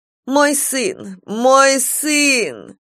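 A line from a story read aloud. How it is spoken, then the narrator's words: Cracked-voiced cry. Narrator (Russian): кричала она надтреснутым голосом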